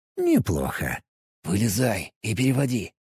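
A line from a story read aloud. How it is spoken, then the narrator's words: Whisper. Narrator (Russian): снова шепнул я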